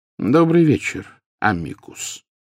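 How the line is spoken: Calm, welcoming. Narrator (Russian): спокойно произнес Дамблдор, словно приветствуя гостя, явившегося на чашку чая

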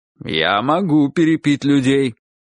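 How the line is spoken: Stern remark. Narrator (Russian): строго заметил дядя Сандро

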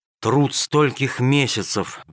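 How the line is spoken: Sigh. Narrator (Russian): вздохнул он

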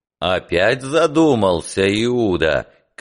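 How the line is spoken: Clear-voiced shout. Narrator (Russian): кричал Петр своим ясным голосом

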